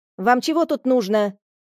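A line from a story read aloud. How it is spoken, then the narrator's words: Barked harshly. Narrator (Russian): рявкнула она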